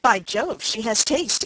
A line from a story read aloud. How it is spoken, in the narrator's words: exclaimed Henry Lynn